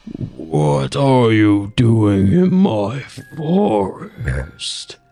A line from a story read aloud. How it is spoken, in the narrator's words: the woodsman growled, his voice like the wind through dead leaves